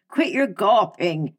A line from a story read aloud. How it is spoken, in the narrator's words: yelled Evelyn